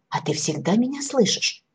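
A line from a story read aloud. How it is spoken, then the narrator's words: Agitated question, small gnome. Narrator (Russian): взволнованно спросил гномик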